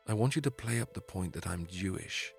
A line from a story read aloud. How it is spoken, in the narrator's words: he whispered